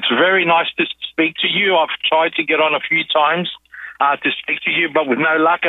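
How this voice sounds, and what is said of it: Australian accent. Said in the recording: “Nice to hear your accent.”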